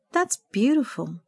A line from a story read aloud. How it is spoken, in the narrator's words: Sandra said sadly, thinking of her mother